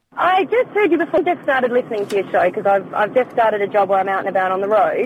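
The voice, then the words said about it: Australian accent. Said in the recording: “you can tell from my accent ... Oh, you're an Australian ... I'm from down under”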